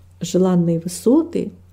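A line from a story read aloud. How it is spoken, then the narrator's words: Plain. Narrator (Russian): ответил пастырь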